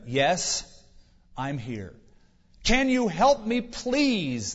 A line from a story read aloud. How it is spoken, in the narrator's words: the man cried